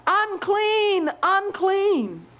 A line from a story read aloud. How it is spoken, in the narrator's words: they were required to scream out